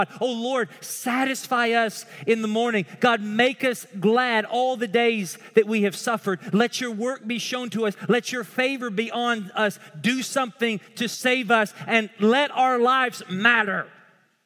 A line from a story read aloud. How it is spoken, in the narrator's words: Moses is pleading with God